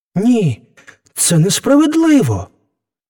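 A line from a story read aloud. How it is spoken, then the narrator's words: Young man exclaiming. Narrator (Ukrainian): вигукнув юнак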